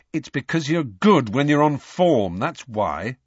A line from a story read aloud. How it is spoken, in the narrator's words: said Harry irritably